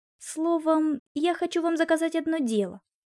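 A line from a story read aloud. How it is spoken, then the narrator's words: Breathed out. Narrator (Russian): выдохнул Алексей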